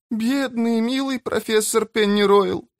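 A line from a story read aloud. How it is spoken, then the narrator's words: Whimpering. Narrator (Russian): захныкала пятая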